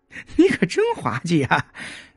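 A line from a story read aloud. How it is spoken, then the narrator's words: Sudden laughter. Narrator (Chinese): 秋鹤突然大笑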